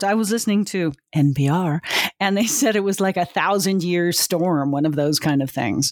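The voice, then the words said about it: Smooth public-radio style voice. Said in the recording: “you've got a bit of an NPR voice going on there”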